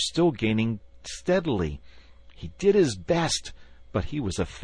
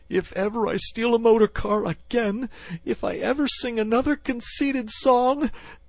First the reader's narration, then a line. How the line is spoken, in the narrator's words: breathless and spluttering